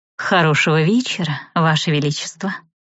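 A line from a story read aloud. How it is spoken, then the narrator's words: Deep contralto purr. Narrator (Russian): Глубоким контральто промурлыкала вампирша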